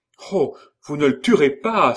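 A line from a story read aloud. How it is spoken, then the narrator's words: Pleading cry. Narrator (French): s'écria-t-elle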